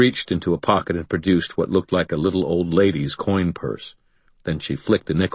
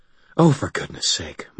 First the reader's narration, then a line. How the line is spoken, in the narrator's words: Molly sighed